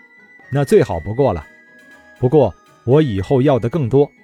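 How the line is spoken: Laughing. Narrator (Chinese): 李直笑道

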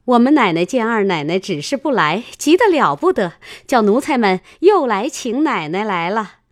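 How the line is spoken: Flustered, laughing. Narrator (Chinese): 两三个婆子慌慌张张的笑说道

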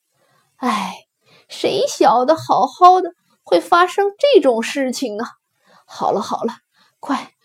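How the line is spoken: Sighing. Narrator (Chinese): 王忠叹了口气说

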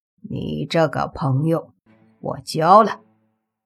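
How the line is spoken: Smiling. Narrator (Chinese): 灰二郎闻言笑了笑，说

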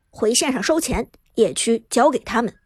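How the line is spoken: Deep grave voice. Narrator (Chinese): 苏哲沉声说道

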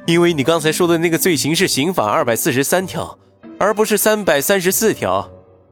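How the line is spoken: Slight smile. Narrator (Chinese): 云峰微微笑了笑，说道

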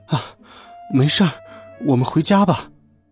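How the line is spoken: Breathless. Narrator (Chinese): 喘着气，摇摇头说

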